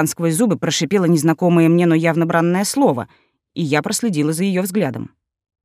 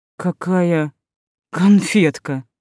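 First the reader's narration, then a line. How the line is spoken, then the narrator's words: Drawn-out remark. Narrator (Russian): протянула я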